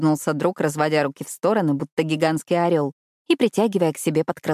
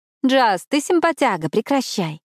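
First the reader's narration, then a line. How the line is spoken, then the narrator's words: Laughing, persuading. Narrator (Russian): Не переставая смеяться, я попыталась разубедить друга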